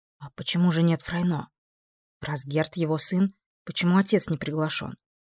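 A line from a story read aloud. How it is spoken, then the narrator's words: Quiet reply. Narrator (Russian): Вампирша также тихо ответила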